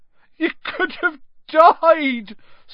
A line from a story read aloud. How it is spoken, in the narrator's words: sobbed Hagrid